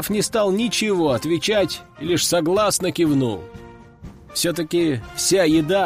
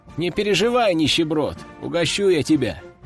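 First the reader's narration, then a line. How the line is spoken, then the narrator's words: Chuckling. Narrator (Russian): хохотнул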